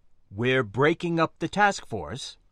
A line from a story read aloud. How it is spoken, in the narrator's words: Commander Bargat asked firmly, wanting a definitive answer